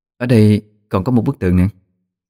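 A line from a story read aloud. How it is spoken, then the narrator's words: Cool, slightly shaken voice. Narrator (Vietnamese): Vẻ mặt xinh đẹp lạnh lùng có chút biến đổi, rồi cất tiếng nói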